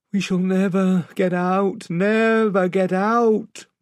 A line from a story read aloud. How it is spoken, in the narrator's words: moaned the rowers